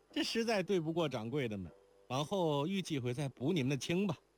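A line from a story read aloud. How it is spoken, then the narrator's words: Loud. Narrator (Chinese): 莲宝高声道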